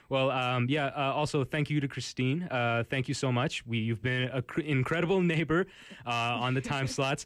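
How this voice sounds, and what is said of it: Polished radio announcer voice. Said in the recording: “This guy actually does not take his radio voice off when he leaves. Like, he's always like this ... damn, this guy has a great radio voice ... it's not just a good radio voice”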